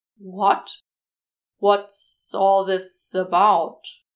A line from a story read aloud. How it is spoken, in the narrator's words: manages, the hiss of his snake voice doesn't pick up anything too incriminating in the way of tones and inflections